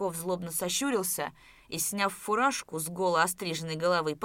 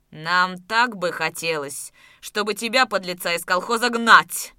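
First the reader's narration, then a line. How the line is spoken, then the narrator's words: Furious red-faced shout. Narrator (Russian): Побагровев крикнул Давыдов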